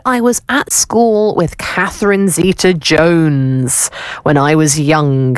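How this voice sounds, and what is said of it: Poor put-on Welsh accent. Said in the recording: “that was a terrible Welsh accent... that was awful”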